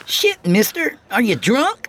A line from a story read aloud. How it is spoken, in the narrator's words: The rotund little green-garbed urchin berated him in a shrill voice